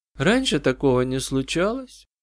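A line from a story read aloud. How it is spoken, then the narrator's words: Quiet lifeless child's voice. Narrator (Russian): Девочка говорила тихо, безжизненным голосом, словно вспоминая что-то давно прошедшее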